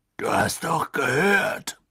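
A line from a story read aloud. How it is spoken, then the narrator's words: Blustering outburst. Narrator (German): polterte er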